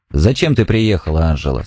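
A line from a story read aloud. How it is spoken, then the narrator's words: Cold question. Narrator (Russian): спросил он холодно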